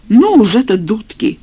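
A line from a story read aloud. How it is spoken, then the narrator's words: Exclaiming. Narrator (Russian): воскликнул я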